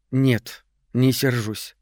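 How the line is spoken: Cold. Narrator (Russian): холодно сказала

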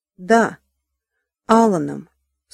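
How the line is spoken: Plain. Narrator (Russian): сказала Диана

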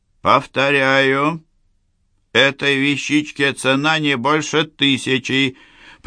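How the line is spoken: Louder. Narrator (Russian): произнес Ламбер уже более громко

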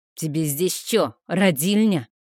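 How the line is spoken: Barking snap. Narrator (Russian): Рявкнул на меня он

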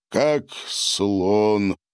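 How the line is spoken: Booming hum. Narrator (Russian): прогудел Гарин

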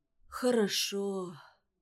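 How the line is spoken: Fearful whisper. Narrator (Russian): прошептал он, боясь, в то же время, что после такого ответа хирург сразу уйдет от него

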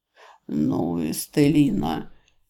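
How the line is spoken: Quiet gentle laugh. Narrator (Russian): тихо, но совсем не обидно смеется Эрельд

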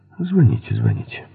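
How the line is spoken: Grumbled. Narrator (Russian): буркнул Фоули

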